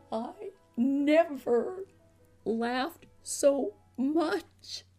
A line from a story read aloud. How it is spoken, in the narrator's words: he said weakly